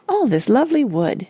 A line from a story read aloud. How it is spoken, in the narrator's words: it said happily